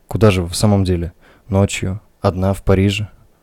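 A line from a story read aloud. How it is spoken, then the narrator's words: Calm question. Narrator (Russian): Спокойно спросил он еще раз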